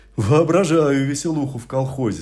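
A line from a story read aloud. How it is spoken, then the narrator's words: Relieved group laughter. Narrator (Russian): засмеялись коллеги, обрадовавшись уходу от тяжелых дум и философских максим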